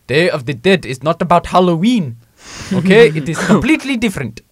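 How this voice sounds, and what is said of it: Failed Mexican accent, sounds Indian. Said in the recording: “That was an Indian accent. ... I forgot how to do a Mexican accent.”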